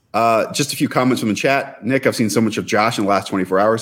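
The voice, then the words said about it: Hoarse, nearly lost voice. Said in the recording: “My voice is gone, if you cannot tell.”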